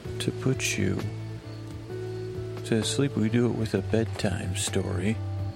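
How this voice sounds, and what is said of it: Whispering. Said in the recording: “why are you whispering a little more than normal? ... I could tell you why I'm whispering.”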